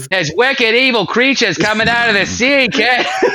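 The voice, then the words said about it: Put-on Massachusetts accent. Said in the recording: “did you picture all the dialogue in your head in like a Massachusetts accent?”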